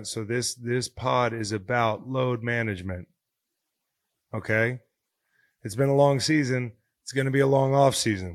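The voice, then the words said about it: Voice not at full strength. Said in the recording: “As you can tell, my voice is not back to 100%.”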